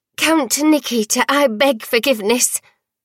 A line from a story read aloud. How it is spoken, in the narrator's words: Worm blurted